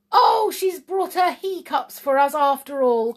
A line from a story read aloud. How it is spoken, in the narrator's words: cried the blue brownie, delighted